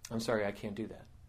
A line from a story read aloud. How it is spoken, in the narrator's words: Arjun said very calmly